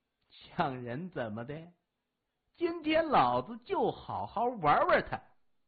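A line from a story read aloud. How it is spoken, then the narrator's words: Young man, sinister laugh. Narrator (Chinese): 青年狞笑着说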